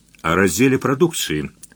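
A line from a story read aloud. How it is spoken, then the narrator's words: Calm explanation. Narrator (Russian): спокойно пояснил Успенский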